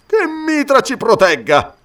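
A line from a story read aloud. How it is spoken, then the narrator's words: Exclaimed. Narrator (Italian): esclamò Amalric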